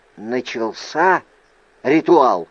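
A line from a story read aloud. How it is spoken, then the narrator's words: Whispered question. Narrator (Russian): шепотом спросил я у Джасры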